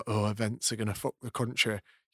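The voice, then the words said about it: Put-on Yorkshire regional accent. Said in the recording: “regional accent ... It sounded like Leeds ... That one's a bit Yorkshire ... Barnsley”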